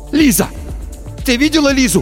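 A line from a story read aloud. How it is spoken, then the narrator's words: Shouting. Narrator (Russian): закричал Тихон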